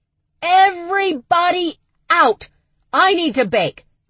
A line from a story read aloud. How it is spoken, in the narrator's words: Charlie … she bellowed